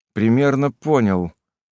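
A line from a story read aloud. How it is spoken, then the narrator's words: Dry reply. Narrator (Russian): сухо ответил я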